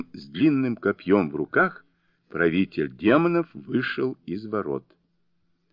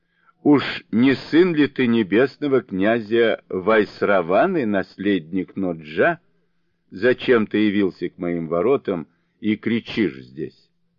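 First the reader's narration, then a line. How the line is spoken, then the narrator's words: Laughing demon lord asking. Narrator (Russian): повелитель демонов рассмеялся и спросил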